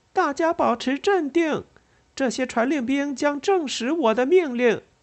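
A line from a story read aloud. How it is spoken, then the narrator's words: Loud. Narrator (Chinese): 伊丽莎白高声说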